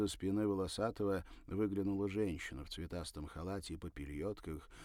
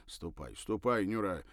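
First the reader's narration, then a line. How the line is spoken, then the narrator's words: Irritated mutter. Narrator (Russian): раздраженно пробурчал он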